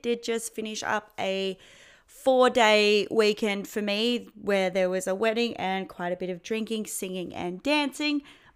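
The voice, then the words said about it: Strained, partly lost voice. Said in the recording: “Losing my voice a bit”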